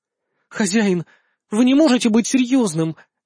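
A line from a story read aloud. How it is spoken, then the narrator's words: Uncertain whisper. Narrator (Russian): непривычно неуверенно прошептала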